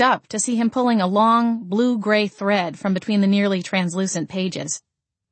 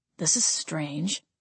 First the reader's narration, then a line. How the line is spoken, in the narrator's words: Gabriel muttered